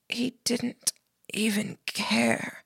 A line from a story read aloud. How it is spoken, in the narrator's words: spoke, her voice ragged, ravaged by the smoke